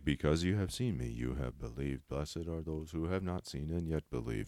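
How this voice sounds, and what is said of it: Flat monotone reading. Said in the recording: “a very uh, can monotone.”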